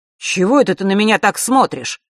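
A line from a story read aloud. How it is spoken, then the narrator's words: Sharp. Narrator (Russian): резко продолжил он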